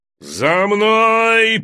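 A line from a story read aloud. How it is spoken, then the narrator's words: Roared command. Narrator (Russian): проревел лорд-командующий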